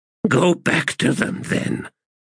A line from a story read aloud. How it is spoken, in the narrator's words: she croaked